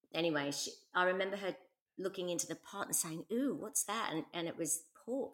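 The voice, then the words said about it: Hybrid English-Australian accent. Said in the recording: “How is my accent today? Is it English or Australian? ... It's a lovely hybrid of both.”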